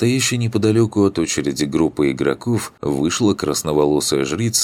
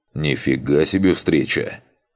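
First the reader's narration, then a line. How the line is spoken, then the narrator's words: Surprised snort. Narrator (Russian): хмыкнул Макс и удивленно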